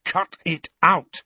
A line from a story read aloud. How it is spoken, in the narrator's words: he said firmly